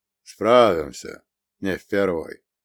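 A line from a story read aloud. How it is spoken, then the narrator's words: Calm, confident reply. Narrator (Russian): спокойно и уверенно ответил Грибов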